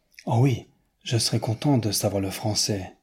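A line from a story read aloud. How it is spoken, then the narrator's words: Earnest, heartfelt. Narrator (French): dit Newman d'un ton pénétré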